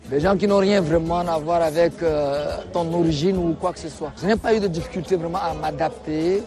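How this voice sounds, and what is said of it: Chadian French accent. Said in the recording (French): “de par mon accent, on sait que c'est un tchadien”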